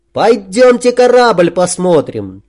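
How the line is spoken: Ringing childlike shout. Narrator (Russian): по-детски звонко выкрикнул Сашок

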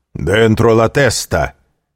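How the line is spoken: Stern commanding shout. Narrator (Russian): крикнул строгий и властный голос

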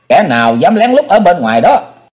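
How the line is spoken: Shout. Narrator (Vietnamese): quát

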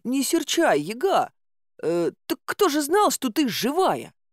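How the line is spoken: Stuttering. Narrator (Russian): начал заикаться он

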